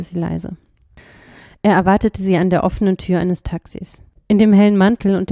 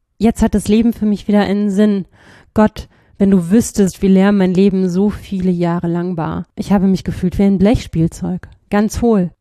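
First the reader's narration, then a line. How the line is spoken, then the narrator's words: Trembling voice. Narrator (German): sagte er mit bebender Stimme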